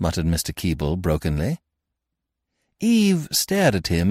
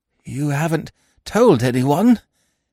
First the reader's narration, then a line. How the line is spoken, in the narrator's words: he croaked hoarsely